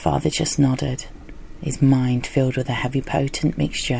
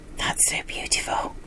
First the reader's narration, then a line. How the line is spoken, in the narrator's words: he whispered